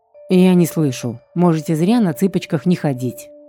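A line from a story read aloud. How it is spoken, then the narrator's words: Snorting. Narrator (Russian): фыркнул оборотень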